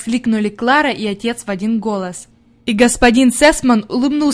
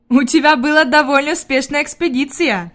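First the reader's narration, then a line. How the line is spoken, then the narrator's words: Laughing. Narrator (Russian): засмеялся господин Сесман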